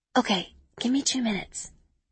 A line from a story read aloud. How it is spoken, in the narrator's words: I whisper